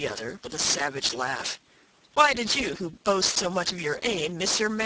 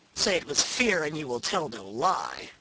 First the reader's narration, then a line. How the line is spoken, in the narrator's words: said his comrade with a sneer